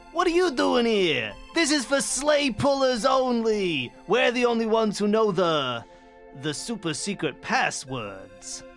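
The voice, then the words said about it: Character voice for Cupid. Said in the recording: “just do that voice ... You want to do Cupid's lines?”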